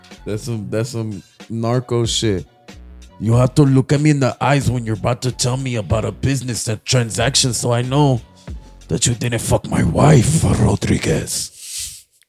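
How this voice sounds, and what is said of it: Put-on foreign accent. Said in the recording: “That was a good accent, right? ... I don't know where it belonged ... It was an accent.”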